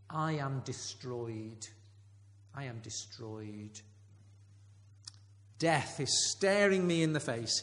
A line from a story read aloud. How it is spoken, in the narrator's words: he cries